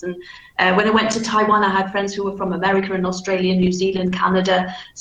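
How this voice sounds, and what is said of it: Softened Manchester accent, flat vowels. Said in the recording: “vowel sounds, for example, are flat ... I have softened out my accent considerably ... speak with a Manchester accent ... your local accent gets really quite flattened out”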